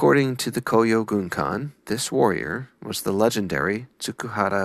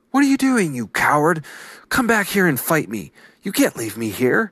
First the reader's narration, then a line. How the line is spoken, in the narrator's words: the young samurai, now stranded, shouted